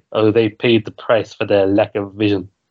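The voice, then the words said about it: Poor impression of the Emperor character. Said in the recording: “I'm just doing impressions this episode ... Impressions that sound nothing like the people you're trying to impersonate ... my Emperor's a little bit better”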